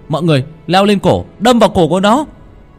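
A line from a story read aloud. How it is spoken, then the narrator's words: Shouted command. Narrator (Vietnamese): Nó hét lên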